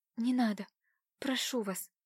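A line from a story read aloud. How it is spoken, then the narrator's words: Miserable whisper. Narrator (Russian): прошептала Катюша так несчастно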